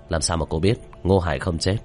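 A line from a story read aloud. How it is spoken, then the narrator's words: Tearful, raised voice. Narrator (Vietnamese): Vu Mộng đôi mắt ngấn lệ, cao giọng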